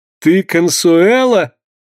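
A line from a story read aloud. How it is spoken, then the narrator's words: Laughing exclamation. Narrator (Russian): воскликнул со смехом Сденко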